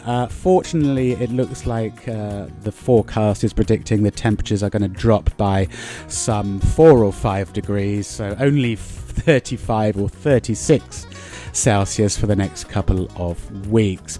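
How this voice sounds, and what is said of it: Weary, tired-sounding voice. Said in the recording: “You can probably hear it in my voice that I do feel a little bit weary.”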